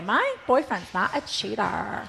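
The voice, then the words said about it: Imitates another person's voice. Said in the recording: “That's a very good imitation... I don't even know if it is a good imitation, but it sounds great.”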